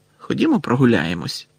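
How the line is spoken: Grumble. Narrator (Ukrainian): буркнув Рон до Гаррі

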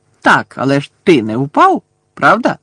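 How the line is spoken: Cheerful exclamation. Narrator (Ukrainian): весело вигукнув Амос

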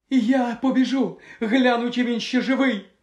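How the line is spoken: Exclaimed. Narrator (Ukrainian): вигукнула Пенсі

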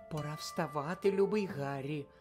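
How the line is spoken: Whisper. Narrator (Ukrainian): прошепотіла вона

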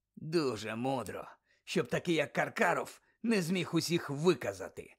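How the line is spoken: Mutter. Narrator (Ukrainian): бурмотів далі Муді

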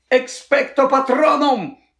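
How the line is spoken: Scream. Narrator (Ukrainian): заверещав Гаррі

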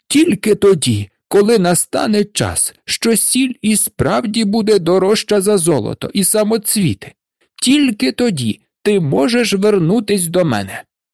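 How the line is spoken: Shouted at someone. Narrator (Ukrainian): закричав він на Марушку

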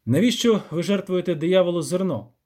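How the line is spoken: Sharp question. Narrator (Ukrainian): запитав він різко

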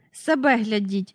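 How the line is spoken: Said angrily. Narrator (Ukrainian): сердито сказала

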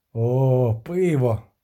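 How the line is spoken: Halfling sighing. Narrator (Ukrainian): зітхнув половинчик

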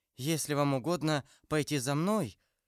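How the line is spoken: Timid. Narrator (Russian): сказала робко Кэти

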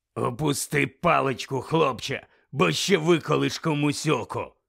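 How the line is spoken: Low gravelly voice. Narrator (Ukrainian): сказав хтось низьким і гаркавим голосом

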